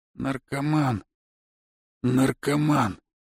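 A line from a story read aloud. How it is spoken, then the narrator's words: Muttered, father. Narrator (Russian): пробормотал отец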